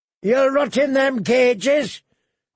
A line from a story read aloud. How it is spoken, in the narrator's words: his captor was shouting